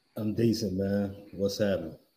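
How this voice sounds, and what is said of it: Flat, monotone, low-energy delivery. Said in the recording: “you so monotone, man. Can we get a little energy from you”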